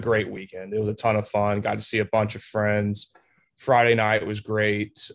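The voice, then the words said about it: Tired, worn-out voice. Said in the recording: “I'm definitely very tired. I'm for sure you can hear it in my voice a little bit.”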